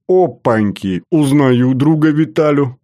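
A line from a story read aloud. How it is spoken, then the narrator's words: Loud laughter. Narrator (Russian): расхохотался Батоныч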